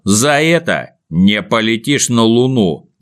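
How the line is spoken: Angry. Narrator (Russian): сердито сверкнув на Незнайку глазами, сказал

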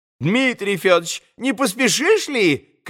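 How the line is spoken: Sudden shout. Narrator (Russian): крикнул вдруг Андрей

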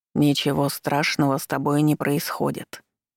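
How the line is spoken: Deep chest voice, old man. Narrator (Russian): неожиданно произнёс старик глубоким грудным голосом

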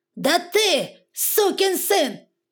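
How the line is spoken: Father yelling louder. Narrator (Russian): орал отец еще громче

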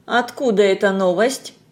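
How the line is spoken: Grumbled. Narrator (Russian): буркнул Паркер

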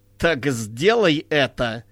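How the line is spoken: Mocking. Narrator (Russian): насмешливо сказала Ваенти

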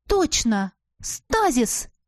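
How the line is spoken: Exclaiming. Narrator (Russian): воскликнула я

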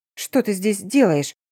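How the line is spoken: Indignant exclamation. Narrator (Russian): воскликнула возмущенно

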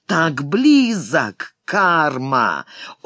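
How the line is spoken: Loud laughter. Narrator (Russian): расхохотался

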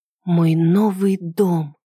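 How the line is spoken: Breathless. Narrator (Russian): выдохнула я

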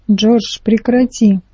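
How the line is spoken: Snapping. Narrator (Russian): огрызнулась Марта

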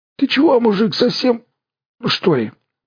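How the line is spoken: Strangled hoarse rasp. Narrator (Russian): сдавленно прохрипел широкомордый

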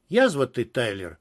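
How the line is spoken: Sighing. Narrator (Russian): вздохнул Гафтенберг

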